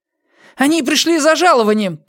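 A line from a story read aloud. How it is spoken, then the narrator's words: Shout. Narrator (Russian): крикнул он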